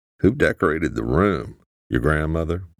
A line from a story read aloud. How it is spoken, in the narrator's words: Luke asked